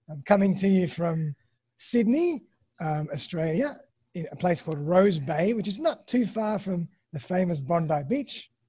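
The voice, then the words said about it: Australian accent. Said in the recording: “my lovely Australian accent”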